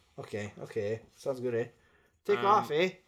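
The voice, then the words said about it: Put-on Canadian accent. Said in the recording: “This guy's going to have a different accent. ... He's going to be Canadian.”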